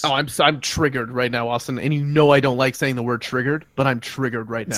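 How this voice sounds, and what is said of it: Yelling, agitated loud voice. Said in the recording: “I'm yelling. I gotta bring it down.”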